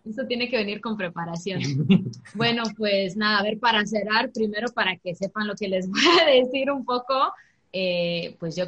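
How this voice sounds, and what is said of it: Spanish with a Mexican accent. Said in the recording (Spanish): “cuando habla en español, aunque hable con el acento mexicano”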